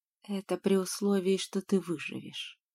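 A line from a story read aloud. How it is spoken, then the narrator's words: Quiet reply. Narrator (Russian): так же тихо ответила я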